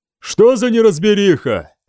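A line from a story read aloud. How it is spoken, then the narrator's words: Soft, gentle tone. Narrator (Russian): сказал Пирлик, его тон и слова были такими мягкими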